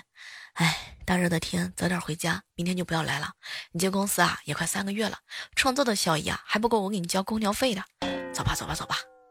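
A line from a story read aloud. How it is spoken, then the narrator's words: Soft, gentle. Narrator (Chinese): 老板娘呢，柔声细语的关怀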